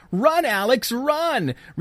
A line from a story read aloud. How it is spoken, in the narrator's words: Kate shouts